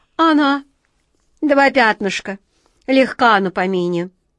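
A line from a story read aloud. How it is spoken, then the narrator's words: Grumbling cat. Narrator (Russian): проворчал кот Васька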